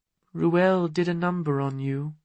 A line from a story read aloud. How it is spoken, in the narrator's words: she said softly